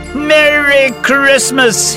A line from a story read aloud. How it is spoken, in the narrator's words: he shouted to his astounded neighbours